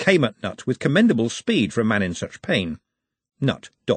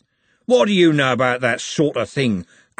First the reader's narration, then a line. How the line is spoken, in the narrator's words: growled Andy